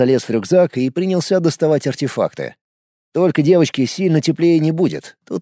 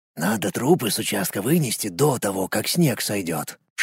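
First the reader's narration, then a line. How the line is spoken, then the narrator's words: Whispered. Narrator (Russian): шепнул мне Колян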